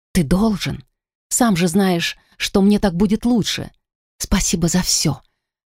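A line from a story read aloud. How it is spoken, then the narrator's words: Tearful whisper. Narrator (Russian): Глотая подступившие слезы, прошептала я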